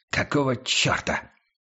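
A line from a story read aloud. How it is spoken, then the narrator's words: Irritated whisper. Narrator (Russian): Раздраженным шепотом обратился он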